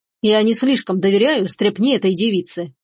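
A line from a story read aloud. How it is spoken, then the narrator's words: Muttering. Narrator (Russian): пробормотал граф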